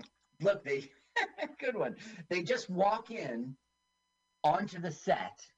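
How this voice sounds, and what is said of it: Usual voice. Nothing is said of it.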